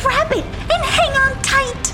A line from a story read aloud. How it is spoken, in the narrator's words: screamed Sarcasta